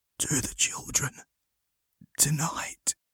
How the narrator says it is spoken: With a tremendous effort, the man whispered

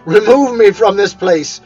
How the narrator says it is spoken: said Scrooge, in a broken voice

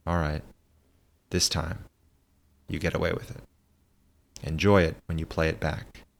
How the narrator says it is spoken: said quietly

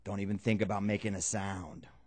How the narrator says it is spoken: Ray said very quietly, but with such conviction

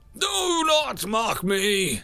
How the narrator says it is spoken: the figure yelled

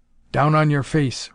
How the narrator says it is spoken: rasped Hero Giles

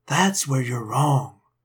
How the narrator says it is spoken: Eric said softly

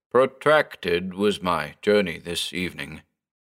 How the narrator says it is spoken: the interloper began, his tone monotonous

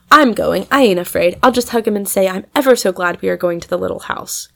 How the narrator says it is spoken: cried Maud

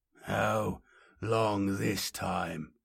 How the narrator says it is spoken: Boreas managed, his voice deep and sepulchral, the sound of immense rocks grinding together

